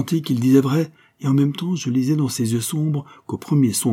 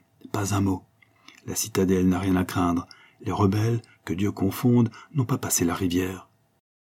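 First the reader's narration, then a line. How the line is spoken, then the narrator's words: Whispered in ear. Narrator (French): il murmura à mon oreille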